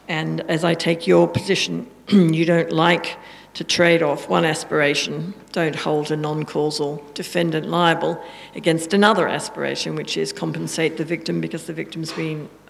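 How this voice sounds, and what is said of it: Strong, hard-to-follow accent. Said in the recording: “your accent is tough, for me at least”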